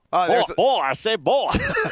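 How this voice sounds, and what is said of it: Foghorn Leghorn cartoon voice impression. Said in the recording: “he's auditioning to be Foghorn Leghorn”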